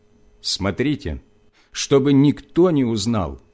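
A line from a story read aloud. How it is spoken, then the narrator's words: Stern. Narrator (Russian): Иисус строго сказал им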